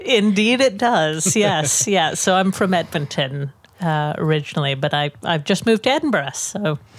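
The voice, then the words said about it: Canadian North American accent. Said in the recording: “your Austrian accent sounds just a little bit Canadian ... your accent is the first North American accent on the podcast”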